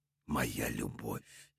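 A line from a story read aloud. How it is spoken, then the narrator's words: Stunned whisper. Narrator (Russian): прошептал ошеломленный барон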